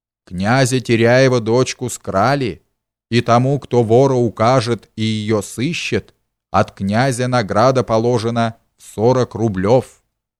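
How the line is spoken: Town criers shouting loudly. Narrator (Russian): берючи от князя громким голосом выкрикивали

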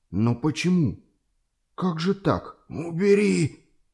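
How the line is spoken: Moaning. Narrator (Russian): стонал закрывший лицо боярин

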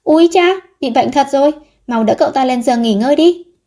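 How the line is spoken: Pale, hurried alarmed cry. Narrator (Vietnamese): Vấn Dược tái mét mặt, vội kêu lên

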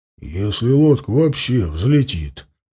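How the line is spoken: Grumbling. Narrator (Russian): проворчал Ауранг

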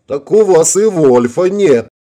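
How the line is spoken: Cheerful laughing yell. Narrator (Russian): жизнерадостно расхохотался Рикки и снова завопил

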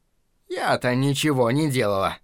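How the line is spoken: Sighed. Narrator (Russian): вздохнула миссис Хиглер

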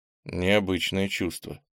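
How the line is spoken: Muttering. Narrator (Russian): пробормотал Кенни

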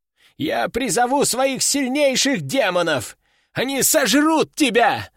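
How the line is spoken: Yelling. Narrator (Russian): заорал он

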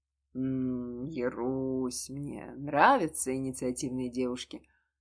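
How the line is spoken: Eager drawl. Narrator (Russian): Протянул, не скрывая предвкушения

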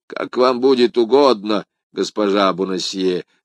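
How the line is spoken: Plain. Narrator (Russian): сказал бывший галантерейщик

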